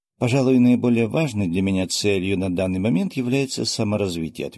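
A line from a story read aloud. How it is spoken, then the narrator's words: Plain. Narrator (Russian): ответил я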